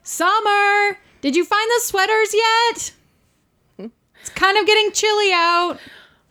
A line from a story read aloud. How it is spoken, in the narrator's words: From downstairs, mother yelling